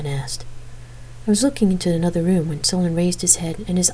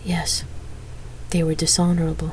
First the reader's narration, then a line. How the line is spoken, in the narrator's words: Solon answered in a soft voice